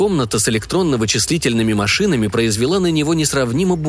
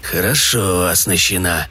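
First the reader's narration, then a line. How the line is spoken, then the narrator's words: Mutter. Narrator (Russian): пробормотал он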